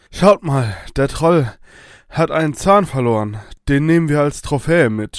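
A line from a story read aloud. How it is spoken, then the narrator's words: Groaning with exhaustion. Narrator (German): stöhnte Kunibert vor Erschöpfung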